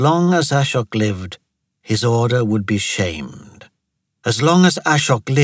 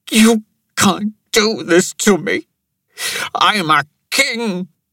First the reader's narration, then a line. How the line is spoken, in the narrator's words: Pankaj cried